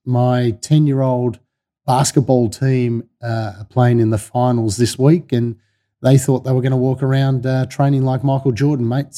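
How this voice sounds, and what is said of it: Husky voice. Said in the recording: “you can probably tell by my voice, mate, it's going a little bit husky... now my voice is quite husky”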